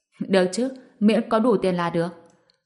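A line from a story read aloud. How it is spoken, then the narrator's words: Laughing. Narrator (Vietnamese): Tên có dầu bật cười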